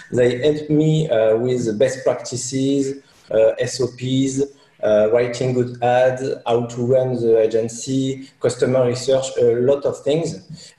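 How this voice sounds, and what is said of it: Speaks English with a noticeable accent. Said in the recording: “sorry for the accent”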